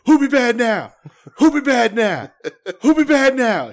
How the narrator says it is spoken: Dusty just keeps screaming

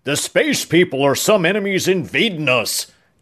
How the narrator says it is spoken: Chow shouted

